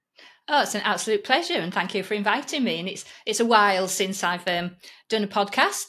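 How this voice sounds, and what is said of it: Yorkshire English accent. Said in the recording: “my Yorkshire accent”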